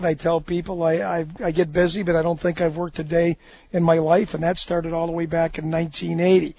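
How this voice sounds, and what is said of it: Hoarse, strained voice with a cold. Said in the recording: “do I have a cold, I'm losing my voice.”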